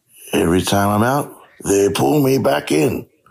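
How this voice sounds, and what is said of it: Put-on American accent impression. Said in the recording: “my American accent ... Say Michael Corleone.”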